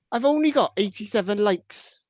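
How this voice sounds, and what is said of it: Poor Welsh accent, half Scouse. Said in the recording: “I've got to say it like Jason ... that was like half Scouse and not really Welsh. It's terrible. ... I can't do the Welsh accent. It's awful.”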